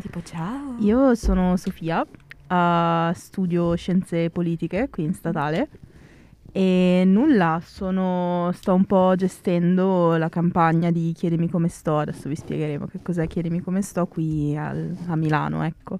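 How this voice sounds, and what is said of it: Seductive, coaxing voice. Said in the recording (Italian): “facendo una voce suadente... Una voce suadente”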